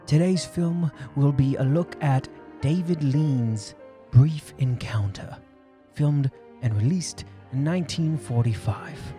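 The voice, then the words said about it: Affected, refined British accent. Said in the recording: “this horrible British accent I'm affecting ... fine UK refinement”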